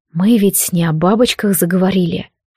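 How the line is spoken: Whispered. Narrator (Russian): шепнул ей Лилейн

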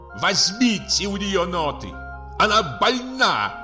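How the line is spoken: Shouted. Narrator (Russian): крикнул наконец

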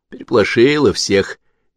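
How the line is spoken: Guilty. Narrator (Russian): виновато сказала Наташа

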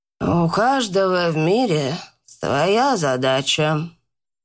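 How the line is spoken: Old woman sighing. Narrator (Russian): вздохнула старуха

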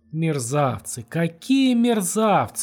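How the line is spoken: Shouting. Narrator (Russian): закричала она

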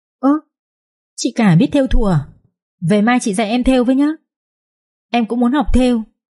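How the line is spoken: Joyful exclamation. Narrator (Vietnamese): cô Mật reo lên sung sướng

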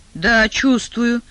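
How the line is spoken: Pleased grumble. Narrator (Russian): проворчал Адам, не сумев, однако, скрыть довольной улыбки

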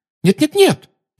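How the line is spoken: Hasty exclamation. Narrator (Russian): поспешно воскликнула Гермиона

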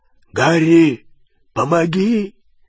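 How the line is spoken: Hoarse call. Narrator (Russian): хрипло позвал Хагрид

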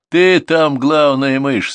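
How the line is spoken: People laughing. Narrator (Russian): смеялись люди

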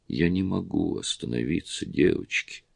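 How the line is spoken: Quiet, plaintive. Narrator (Russian): Тихий голос жалобно ответил им

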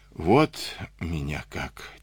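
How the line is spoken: Quiet. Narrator (Russian): тихо сказал он

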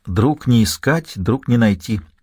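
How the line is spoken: Encouraging whisper. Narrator (Russian): ободряюще шепнул он

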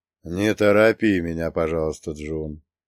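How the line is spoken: Sad. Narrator (Russian): грустно произнес Накамура-сан

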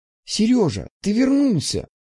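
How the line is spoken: Joyful exclamation, girl. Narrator (Russian): Радостно воскликнула девушка

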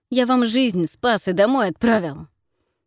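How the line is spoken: Through gritted teeth. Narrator (Russian): процедил сквозь зубы, напоминая

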